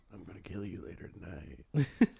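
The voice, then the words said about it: Very deep, menacing voice. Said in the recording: “the voice ... It's so deep. ... That's how they sound. You're doing it.”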